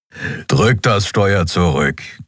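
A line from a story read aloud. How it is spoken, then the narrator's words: Creature growling from behind. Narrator (German): knurrte der Skria hinter ihr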